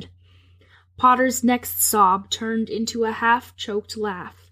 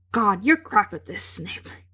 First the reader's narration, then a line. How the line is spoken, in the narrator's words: he muttered